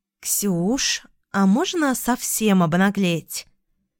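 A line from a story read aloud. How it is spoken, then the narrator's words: Ingratiating question from a friend. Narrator (Russian): вкрадчиво поинтересовалась подруга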